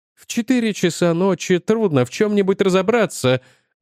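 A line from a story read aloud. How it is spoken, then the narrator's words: Sigh. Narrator (Russian): вздохнул Агапян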